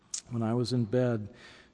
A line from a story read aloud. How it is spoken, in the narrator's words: she said very softly